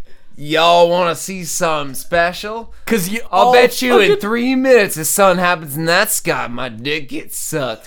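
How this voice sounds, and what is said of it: Put-on Texan accent. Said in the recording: “You have a Texan accent.”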